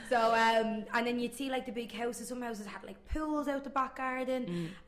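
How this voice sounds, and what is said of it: Working-class Irish accent. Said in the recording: “clearly by my accent I wasn't brought up in a loaded area. Not from Fox Rock.”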